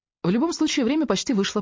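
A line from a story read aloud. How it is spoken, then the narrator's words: Rapid patter. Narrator (Russian): протараторила я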